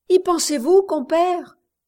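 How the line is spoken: Distressed woman exclaiming. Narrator (French): s'écriait la bonne femme désolée

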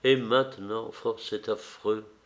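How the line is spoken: Murmured. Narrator (French): murmura-t-elle

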